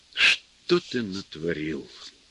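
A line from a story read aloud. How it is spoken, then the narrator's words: Sad question. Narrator (Russian): печально спросил его режиссер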